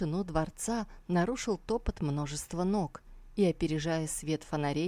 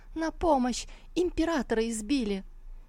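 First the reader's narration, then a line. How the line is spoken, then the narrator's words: Shouted. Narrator (Russian): Опомнившись, Сусу закричала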